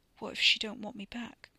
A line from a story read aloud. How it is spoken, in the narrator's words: whispered